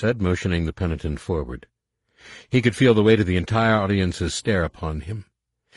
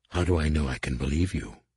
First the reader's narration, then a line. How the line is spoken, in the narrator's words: Numanor whispered